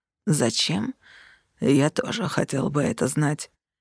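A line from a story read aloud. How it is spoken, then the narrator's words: Hoarse croak. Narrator (Russian): хрипло каркнул Саргейден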